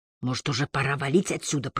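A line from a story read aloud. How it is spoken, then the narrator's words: Whisper. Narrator (Russian): прошептал я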